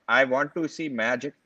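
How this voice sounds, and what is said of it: Put-on Indian accent. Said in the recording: “I shouldn't do the Indian accent”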